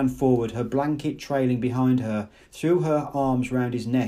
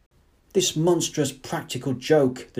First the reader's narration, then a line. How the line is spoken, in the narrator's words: the director shouted